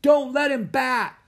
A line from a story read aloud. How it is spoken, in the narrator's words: someone shouted